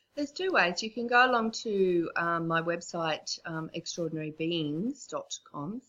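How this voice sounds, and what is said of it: Australian accent. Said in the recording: “because of my accent, I know we're both Aussies”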